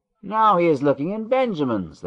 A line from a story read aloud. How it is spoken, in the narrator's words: they cried